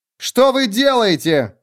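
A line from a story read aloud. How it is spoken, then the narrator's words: Shouted. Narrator (Russian): крикнула она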